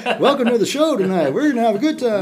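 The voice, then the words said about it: Cliched upbeat radio announcer voice. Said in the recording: “cliched kind of radio voice”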